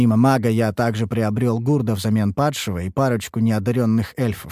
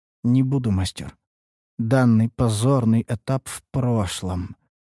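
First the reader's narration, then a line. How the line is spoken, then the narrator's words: Glum female remark. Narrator (Russian): заметила грудастая эльфийка уныло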